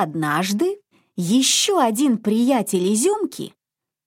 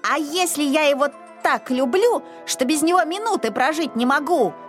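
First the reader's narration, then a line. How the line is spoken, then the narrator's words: Shouting. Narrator (Russian): кричал Изюмка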